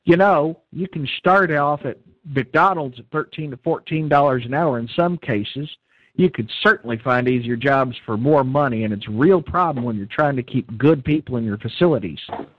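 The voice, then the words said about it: Texan accent imitating Ted Cruz. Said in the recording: “I had to channel that accent... You said that like Ted Cruz”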